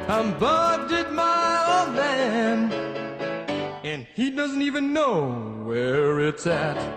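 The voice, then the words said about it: Sung in falsetto. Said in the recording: “very nice falsetto there”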